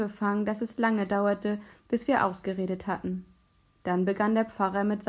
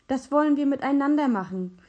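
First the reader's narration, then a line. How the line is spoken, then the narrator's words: Exclaiming. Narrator (German): rief ich aus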